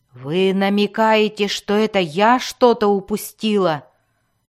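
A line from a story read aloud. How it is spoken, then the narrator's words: Growling. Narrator (Russian): зарычала Мелис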